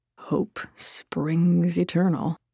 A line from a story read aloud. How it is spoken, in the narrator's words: He huffed out a breath of annoyance, then muttered